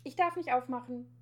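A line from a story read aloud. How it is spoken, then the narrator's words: Calling out. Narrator (German): ruft Schnüpperle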